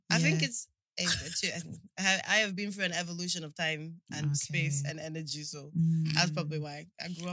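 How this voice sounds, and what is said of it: South African accent. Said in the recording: “Are you from South Africa? That's why. I can hear it in your accent.”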